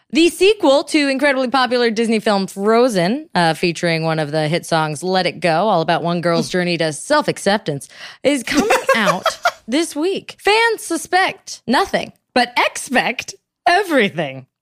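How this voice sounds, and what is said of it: Mock radio show announcer voice. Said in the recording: “I'm going to fake doing like a summary. Like we're a real radio show ... that was my impression of somebody introing what Frozen 2 is”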